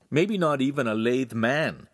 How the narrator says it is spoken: Hansum added brightly

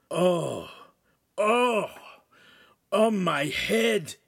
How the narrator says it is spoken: Ugolino groaned

